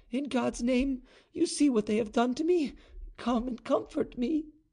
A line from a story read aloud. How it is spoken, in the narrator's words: she cried